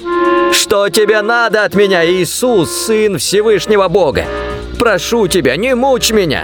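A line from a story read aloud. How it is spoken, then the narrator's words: Loud wailing cry. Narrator (Russian): с воплем бросился, громким голосом закричал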